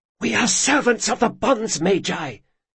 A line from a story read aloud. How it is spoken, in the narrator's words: she whispered angrily